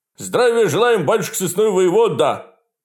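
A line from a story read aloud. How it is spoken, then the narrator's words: Two young men barking together. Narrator (Russian): Гаркнули двое молодых безбородых бояр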